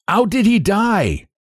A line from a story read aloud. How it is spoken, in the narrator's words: the captain shouted